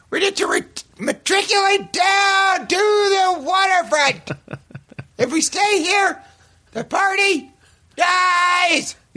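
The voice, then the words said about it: Imitates another person's voice. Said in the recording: “Is that a good impression? ... it's what you sound like to everybody else ... Yeah, very similar ... It's pretty seriously similar.”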